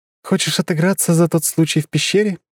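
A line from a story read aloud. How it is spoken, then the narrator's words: Giggling. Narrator (Russian): хихикнула Лора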